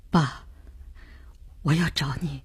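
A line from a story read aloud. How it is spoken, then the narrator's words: Hoarse, tearful son. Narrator (Chinese): 儿子的声音很哑，像哭过似的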